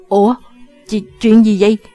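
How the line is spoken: Stunned stammering question. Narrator (Vietnamese): Chàng ta ngỡ ngàng lắp bắp hỏi

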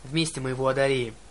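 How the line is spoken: Growling. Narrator (Russian): прорычала Клариса

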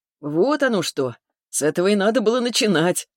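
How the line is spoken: Chuckling. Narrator (Russian): хохотнул

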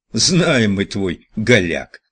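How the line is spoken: Laughing. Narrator (Russian): засмеялся Райк

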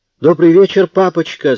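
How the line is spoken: Daughters squealing. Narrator (Russian): завизжали дочки

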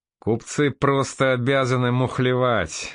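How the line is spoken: Laughing. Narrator (Russian): засмеялся князь

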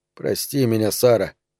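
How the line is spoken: Muttering. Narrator (Russian): бормотал он

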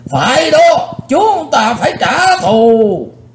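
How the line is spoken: Many men shouting together. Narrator (Vietnamese): 20 mấy tên cao thủ trong Hắc Bạch Lưỡng Đạo đồng hét vang lên

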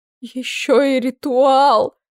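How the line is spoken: Moaning. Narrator (Russian): простонала Клариса

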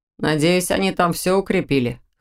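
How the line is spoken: Snorting. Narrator (Russian): хмыкнул Доминик

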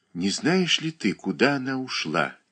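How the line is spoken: Quiet question. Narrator (Russian): тихо спросила Катерина Александровна

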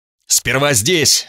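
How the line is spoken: Yelling. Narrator (Russian): заорал я

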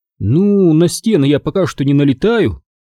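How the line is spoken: Grumbled. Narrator (Russian): проворчала Талла

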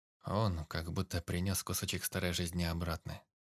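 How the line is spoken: Quiet. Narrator (Russian): тихо сказал Антон

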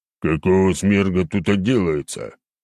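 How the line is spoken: Booming drone. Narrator (Russian): прогудел 306-й

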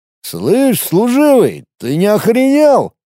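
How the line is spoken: Half-drunk voice. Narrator (Russian): полупьяным голосом произнес он

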